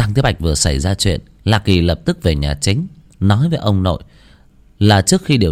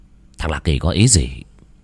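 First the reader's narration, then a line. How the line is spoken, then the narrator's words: Muttering. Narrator (Vietnamese): Lạc Hải lẩm bẩm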